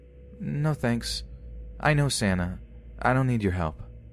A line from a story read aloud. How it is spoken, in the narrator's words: he replies flatly